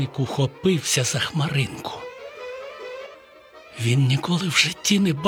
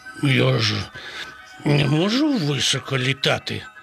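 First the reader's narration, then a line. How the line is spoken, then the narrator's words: Sad rooster. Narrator (Ukrainian): сумно відказав півень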